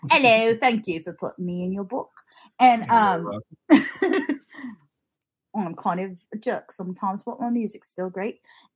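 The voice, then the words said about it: Put-on accent imitating another person. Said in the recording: “I don't know why I'm giving him that accent. It doesn't sound like that.”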